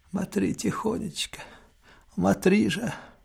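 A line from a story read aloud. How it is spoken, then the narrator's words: Anxious mumbling. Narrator (Russian): Она беспокойно бормочет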